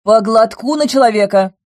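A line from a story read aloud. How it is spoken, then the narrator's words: Barked. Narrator (Russian): рявкнула я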